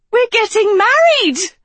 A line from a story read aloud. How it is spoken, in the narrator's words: She shrieked